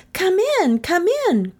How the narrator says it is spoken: cried the children

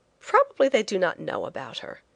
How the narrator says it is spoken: I said more cheerfully

